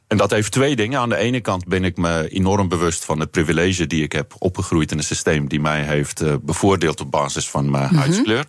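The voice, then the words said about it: South African accent in Dutch. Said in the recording (Dutch): “Ik ben opgegroeid in Zuid-Afrika. Dat horen mensen misschien aan het accent.”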